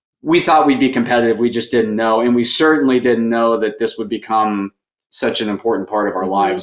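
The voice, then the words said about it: Slight Slovak accent. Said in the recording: “I detect a little bit of an accent when I hear you talk... born and raised in Slovakia, so it's Central Europe”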